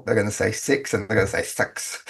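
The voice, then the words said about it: Bad imitation New Zealand accent. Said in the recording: “when I think of a Kiwi, I know that when they talk... that's a terrible accent.”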